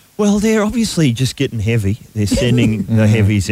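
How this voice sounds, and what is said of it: Usual voice. Nothing is said of it.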